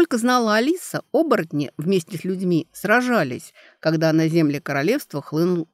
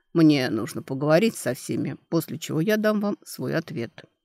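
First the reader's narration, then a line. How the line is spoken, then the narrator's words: Calm. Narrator (Russian): сказал спокойно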